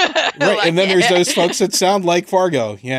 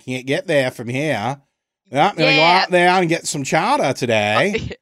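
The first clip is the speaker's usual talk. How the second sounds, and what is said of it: Put-on New England accent. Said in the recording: “you get the New England accent too”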